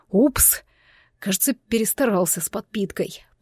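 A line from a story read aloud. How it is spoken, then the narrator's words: Muttered. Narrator (Russian): пробормотал Кальтер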